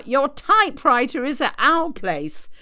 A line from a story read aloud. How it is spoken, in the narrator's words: Schneidovera called out